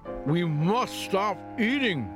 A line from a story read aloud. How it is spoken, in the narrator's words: cried Toad, as he ate another